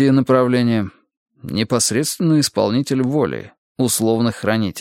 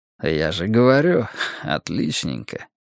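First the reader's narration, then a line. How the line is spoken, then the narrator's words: Snorting chuckle. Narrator (Russian): хмыкнул Нуржан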